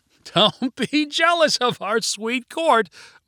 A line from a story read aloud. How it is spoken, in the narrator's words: Martin said with a laugh